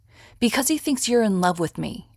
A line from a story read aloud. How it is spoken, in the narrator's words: Arthur snapped